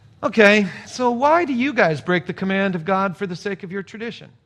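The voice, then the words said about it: Passive-aggressive tone. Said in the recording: “Maybe he was passive aggressive.”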